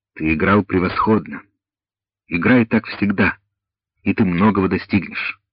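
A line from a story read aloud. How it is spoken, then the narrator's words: Said affectionately. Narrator (Russian): ласково сказал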